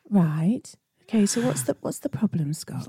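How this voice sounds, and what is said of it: Deliberately calm, soothing voice. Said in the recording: “doing my calm voice”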